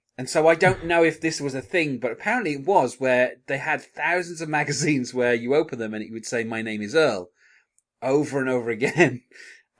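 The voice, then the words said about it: Non-American accent. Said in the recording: “I don't live in America, as you could probably tell from my accent.”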